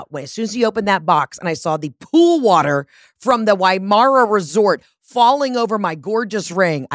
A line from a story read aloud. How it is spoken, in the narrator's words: I screamed